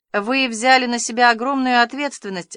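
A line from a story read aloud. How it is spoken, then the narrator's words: Gloomy. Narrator (Russian): сказала почтенная дама мрачно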